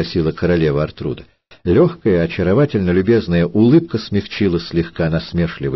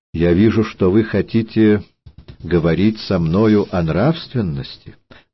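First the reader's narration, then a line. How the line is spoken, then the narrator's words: Calm. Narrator (Russian): Королева Артруда спокойно сказала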